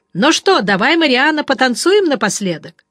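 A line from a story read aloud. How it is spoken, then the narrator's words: Loud speech. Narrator (Russian): Фокс громко сказал самоходке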